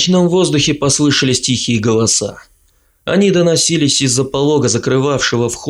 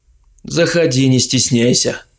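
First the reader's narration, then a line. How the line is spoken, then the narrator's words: Gloomy offer. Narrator (Russian): мрачно предложил я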